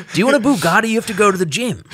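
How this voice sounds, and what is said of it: Weird put-on accent imitating someone. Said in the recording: “Weird accent”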